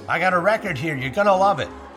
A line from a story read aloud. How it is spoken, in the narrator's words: He yells to Clark over the loud music